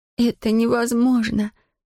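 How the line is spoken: Child's moan. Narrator (Russian): простонала девочка

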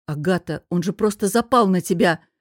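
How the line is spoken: Groaning. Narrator (Russian): простонал Костя

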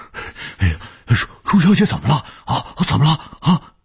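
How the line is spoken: Anxious, urgent. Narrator (Chinese): 卢老头……急切地说

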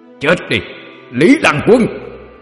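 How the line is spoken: Loud shout. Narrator (Vietnamese): Quỷ Diện hét lớn một tiếng

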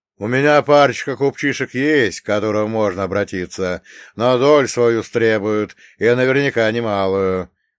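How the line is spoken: Loud. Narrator (Russian): громко произнес Нелюб

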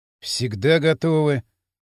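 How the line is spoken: Gloomy. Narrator (Russian): мрачно кивнул Кирилл

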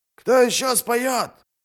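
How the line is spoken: Shout. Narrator (Russian): крикнул кто-то

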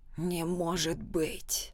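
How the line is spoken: Whisper. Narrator (Russian): прошептал Альфа-12

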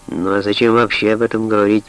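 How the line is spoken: Grumbling. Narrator (Russian): проворчал Адамс

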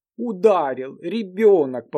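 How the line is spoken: Repeated amid laughter. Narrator (Russian): повторяли ... хохотали

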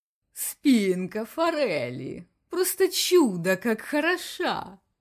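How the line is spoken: Purring. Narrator (Russian): Промурлыкал инспектор снова

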